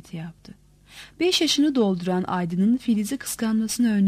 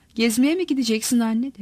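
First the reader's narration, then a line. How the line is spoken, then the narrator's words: Plain. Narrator (Turkish): dedi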